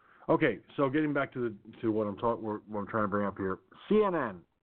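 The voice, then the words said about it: Gravelly, tired-sounding voice. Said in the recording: “you can probably hear it in my voice. ... And if my voice sounds like a gravel pit was swallowed, yeah, that's because I'm that tired.”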